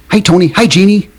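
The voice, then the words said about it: Imitates another person's voice. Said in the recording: “my impersonation of Bill Daly ... Very good ... that was spot on”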